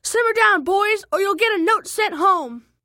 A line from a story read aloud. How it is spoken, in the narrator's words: our teacher, Miss P, yell